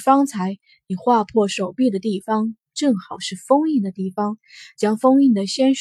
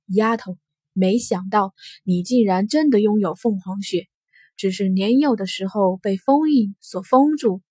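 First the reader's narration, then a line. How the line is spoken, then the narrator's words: Soft sigh. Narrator (Chinese): 安阳城轻叹息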